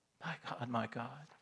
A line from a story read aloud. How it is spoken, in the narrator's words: Jesus cries out